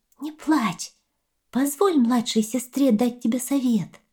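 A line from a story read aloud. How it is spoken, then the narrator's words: Thin little voice. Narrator (Russian): Черепаха тоненьким голоском сказала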